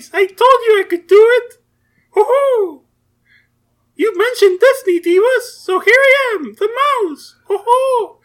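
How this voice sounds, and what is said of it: Mickey Mouse cartoon voice. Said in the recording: “You still doing that voice? ... I'm doing the Mickey Mouse voice.”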